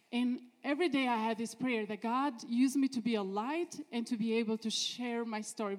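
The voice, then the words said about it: Noticeable foreign accent. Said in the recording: “since I have this accent, people were curious about... oh, where are you from?”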